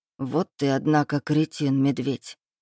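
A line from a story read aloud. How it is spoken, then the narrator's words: Muttering. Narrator (Russian): пробормотал Эдуард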